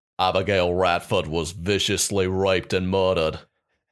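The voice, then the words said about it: Put-on Australian accent. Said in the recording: “My only Australian accent is because I, for an entire summer, I binge listened to an Australian true crime podcast ... do your best Australian”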